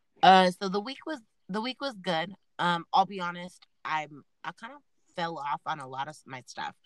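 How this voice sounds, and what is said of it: Sick, congested-sounding voice. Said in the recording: “now that I'm getting sick... I'm so sick... That's why my voice sounds like this”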